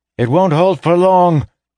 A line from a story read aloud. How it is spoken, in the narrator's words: he shouted